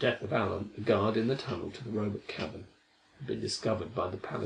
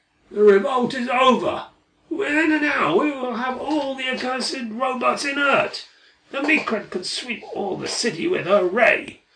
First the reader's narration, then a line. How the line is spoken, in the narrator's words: I heard one of them shouting